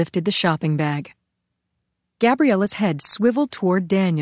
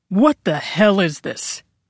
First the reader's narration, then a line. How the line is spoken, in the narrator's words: Daniel barked